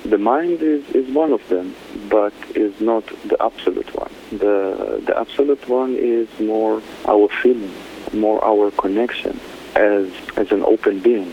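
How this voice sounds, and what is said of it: Israeli-accented English. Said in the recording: “where is this beautiful accent from? I adore it. ... Originally, I'm from Israel.”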